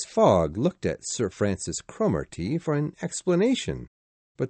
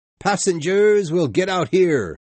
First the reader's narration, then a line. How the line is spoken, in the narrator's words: The conductor shouted